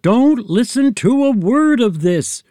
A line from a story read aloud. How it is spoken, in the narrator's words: shouted Boppo